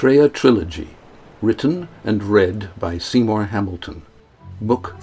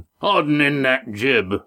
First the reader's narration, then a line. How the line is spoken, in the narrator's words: Roaring Jack boomed in his ear